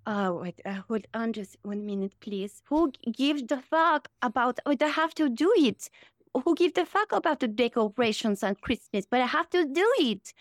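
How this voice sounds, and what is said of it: Imitates another person's voice. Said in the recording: “Can you do Melania?”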